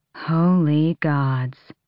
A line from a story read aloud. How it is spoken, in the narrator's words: Nezrin breathed